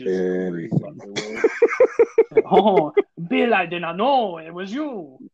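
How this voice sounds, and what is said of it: Attempted French accent. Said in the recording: “This in her accent ... I can't do a girl French voice”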